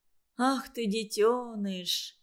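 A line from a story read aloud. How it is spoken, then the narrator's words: Tender. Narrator (Russian): ласково сказала она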